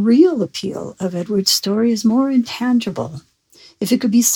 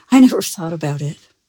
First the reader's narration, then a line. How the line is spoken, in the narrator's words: he laughed and said